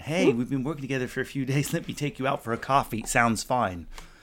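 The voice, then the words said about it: Put-on American accent. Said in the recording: “unless I did it in an American accent”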